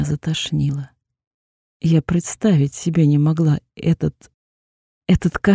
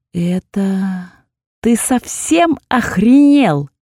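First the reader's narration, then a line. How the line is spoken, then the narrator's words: Extremely loud yell. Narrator (Russian): Заорала я так громко, что стекла должны были не то чтобы вылететь, но как минимум задребезжать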